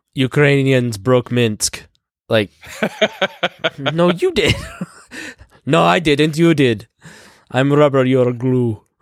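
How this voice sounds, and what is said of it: Mock Russian accent. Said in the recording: “That is actually a pretty decent, like, Russian accent”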